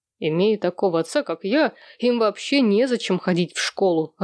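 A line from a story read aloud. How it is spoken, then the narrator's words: Laughing. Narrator (Russian): рассмеялся Сэм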